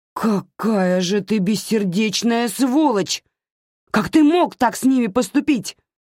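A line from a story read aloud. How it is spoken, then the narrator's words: Screaming. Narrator (Russian): заорала она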